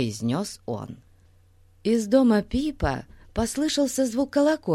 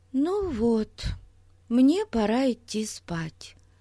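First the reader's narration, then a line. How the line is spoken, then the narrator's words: Sad sigh. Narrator (Russian): грустно вздохнула Бетси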